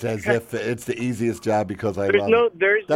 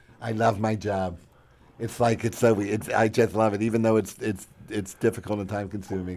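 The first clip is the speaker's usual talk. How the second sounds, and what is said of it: Imitates another person's voice. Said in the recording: “You're mocking Jesse now.”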